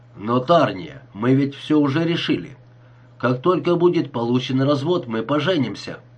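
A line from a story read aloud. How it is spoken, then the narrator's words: Sharp. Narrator (Russian): резко сказал Джеймисон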